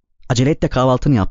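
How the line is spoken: Stern voice. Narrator (Turkish): dedi Gertrude sert bir sesle

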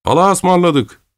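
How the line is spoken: Shouted. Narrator (Turkish): diye bağırdı

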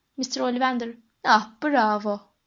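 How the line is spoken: Shouting. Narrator (Turkish): diye bağırdı

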